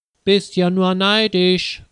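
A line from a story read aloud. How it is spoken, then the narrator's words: Calling after her. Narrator (German): ruft ihr Peter nach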